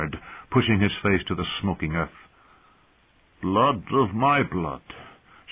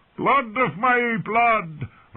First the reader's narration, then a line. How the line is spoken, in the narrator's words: Rakaro shouted